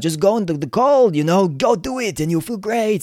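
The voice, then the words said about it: Bad imitation of another person's accent. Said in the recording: “that's a terrible accent. It sounded a little bit like Arnold Schwarzenegger ... It's terrible”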